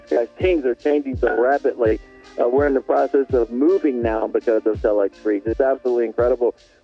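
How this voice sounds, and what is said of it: Excited, energetic delivery. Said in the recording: “there's a lot of excitement, as you can hear in my voice.”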